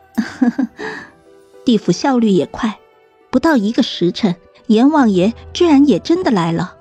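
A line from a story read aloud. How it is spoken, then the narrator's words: Awkward laugh. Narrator (Chinese): 我尬笑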